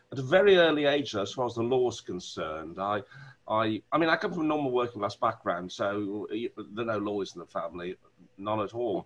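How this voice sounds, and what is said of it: Wolverhampton accent. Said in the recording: “I'm from Wolverhampton. You probably can hear the accent come out every now and then ... That's my natural accent”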